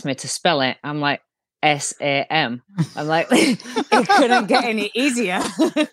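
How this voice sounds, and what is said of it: Strong accent. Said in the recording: “you do have a strong accent”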